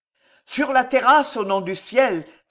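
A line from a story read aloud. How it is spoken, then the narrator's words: Exclaimed again. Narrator (French): s'écria encore Grandchamp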